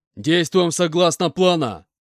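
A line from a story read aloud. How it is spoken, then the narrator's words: Bear-like roar. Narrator (Russian): Словно медведь прорычал Толя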